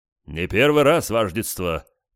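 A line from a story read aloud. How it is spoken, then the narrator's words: Deep bass voice. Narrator (Russian): пробасил кто-то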